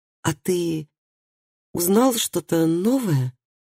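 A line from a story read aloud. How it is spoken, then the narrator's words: Stammering question. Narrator (Russian): заикаясь, спросила она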